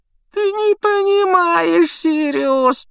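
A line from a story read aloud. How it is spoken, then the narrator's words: Whimpering. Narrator (Russian): проскулил Петтигрю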